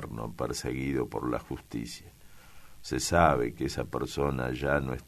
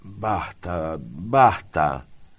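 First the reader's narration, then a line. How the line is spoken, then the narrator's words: Exclaiming. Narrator (Spanish): exclamó Amalia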